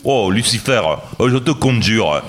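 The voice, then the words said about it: Put-on southern French accent. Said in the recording (French): “satanistes dans le sud avec leur accent”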